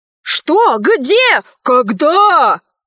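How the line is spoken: Clamoring yells, many voices. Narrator (Russian): завопили журналисты

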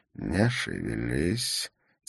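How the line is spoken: Quiet. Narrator (Russian): тихо сказал Валентин

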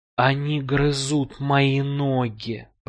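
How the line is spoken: Moaning. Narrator (Russian): простонал он

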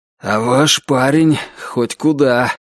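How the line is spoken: Tired, curt remark. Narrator (Russian): устало бросил Ричардс

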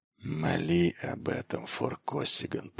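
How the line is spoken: Whisper. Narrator (Russian): прошептал Форхалос

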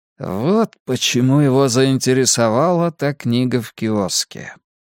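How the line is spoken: Quiet voice. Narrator (Russian): тихо произнес Билл Сэмюэлс

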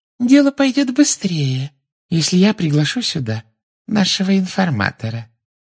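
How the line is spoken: Silky voice from behind. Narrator (Russian): шелковым голоском сказала из-за его спины Амбридж

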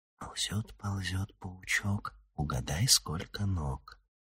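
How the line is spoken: Whispered chant. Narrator (Russian): приговаривая шепотом

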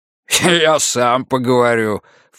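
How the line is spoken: Snort. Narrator (Russian): фыркнул Гуннарсон

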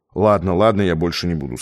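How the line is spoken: Plain. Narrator (Russian): сказал Абалкин

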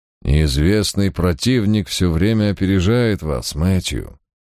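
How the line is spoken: Even, dispassionate. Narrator (Russian): произнес он ровным и бесстрастным тоном

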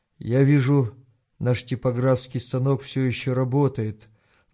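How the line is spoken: Sad remark. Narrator (Russian): грустно заметил он

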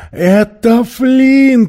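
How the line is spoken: Exclaiming. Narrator (Russian): воскликнул Мэри

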